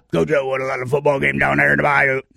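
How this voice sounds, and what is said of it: Impression of Ed Orgeron. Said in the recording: “a good impersonation”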